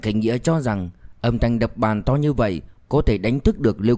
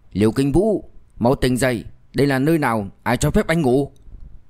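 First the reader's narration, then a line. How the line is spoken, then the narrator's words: Angry. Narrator (Vietnamese): Mạnh Khánh Nghĩa tức giận nói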